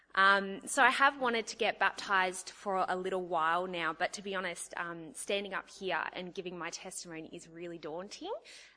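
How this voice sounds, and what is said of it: Nervous, shaky speaking voice. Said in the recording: “I sound nervous.”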